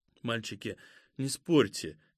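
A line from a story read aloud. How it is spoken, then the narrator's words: Quiet, subdued. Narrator (Russian): тихо сказала присмиревшая Катя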